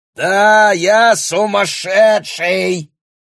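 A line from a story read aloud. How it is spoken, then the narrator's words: Yelling in someone's face. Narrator (Russian): орал Бруно в лицо Хелен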